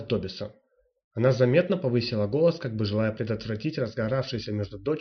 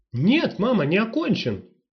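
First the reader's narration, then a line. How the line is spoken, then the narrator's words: Indignant protest. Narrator (Russian): возмущенно возразила Марлена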